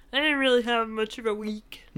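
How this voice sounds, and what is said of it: Kermit-like silly put-on voice. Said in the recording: “That was my impression of me. ... I thought we were doing a Kermit thing.”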